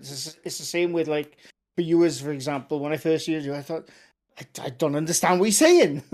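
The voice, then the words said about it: Loud South Welsh accent. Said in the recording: “I got a Welsh accent ... still definitely a Welsh accent ... accent because he's so loud ... I'm in the south”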